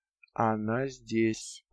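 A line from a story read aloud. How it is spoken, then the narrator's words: Dull flat repetition. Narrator (Russian): повторил Ду глухо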